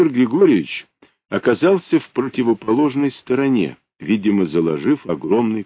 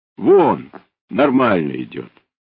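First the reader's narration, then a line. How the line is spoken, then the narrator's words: Calm statement. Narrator (Russian): пилот-инструктор спокойно сказал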